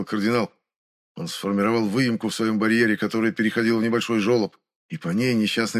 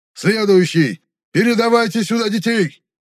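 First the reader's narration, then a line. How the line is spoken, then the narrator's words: Shouted. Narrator (Russian): прокричал Ренхаан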